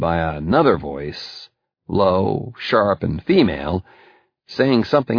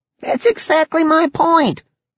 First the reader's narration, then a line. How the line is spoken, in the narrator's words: Leon exclaimed